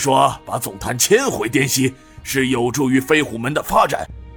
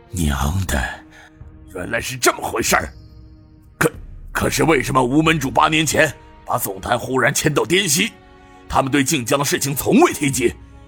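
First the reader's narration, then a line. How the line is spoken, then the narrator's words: Angry voice. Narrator (Chinese): 他怒声道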